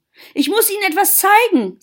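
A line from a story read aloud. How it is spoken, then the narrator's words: Very excited. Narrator (German): sagte sie ganz aufgeregt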